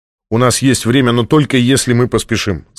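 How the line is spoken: Plain. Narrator (Russian): сказал Джабба

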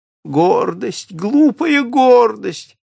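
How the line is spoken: Exclaimed. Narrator (Russian): воскликнул он

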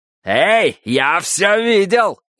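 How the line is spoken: Shout. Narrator (Russian): крикнул Фариш

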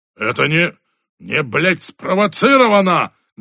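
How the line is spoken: Booming bark. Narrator (Russian): громогласно рявкнул черный дылда

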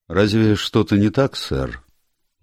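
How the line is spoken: Flat, toneless old man. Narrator (Russian): Помолчав несколько секунд, старик спросил бесцветным голосом

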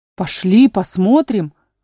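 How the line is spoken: Exclaimed together. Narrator (Russian): воскликнули братья

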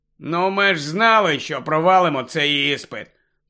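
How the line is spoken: Gloomy mutter. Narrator (Ukrainian): похмуро буркнув Рон

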